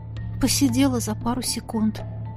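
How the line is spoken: Explaining with a sigh. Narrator (Russian): пояснила, вздохнув

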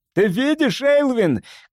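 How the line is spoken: Shout. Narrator (Russian): крикнул

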